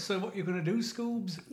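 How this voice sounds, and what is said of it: Shaggy impression. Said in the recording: “You were quite good at the Shaggy.”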